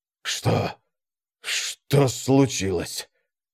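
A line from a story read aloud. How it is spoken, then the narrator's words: Barely audible whisper. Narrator (Russian): Свой голос показался ему едва слышным шепотом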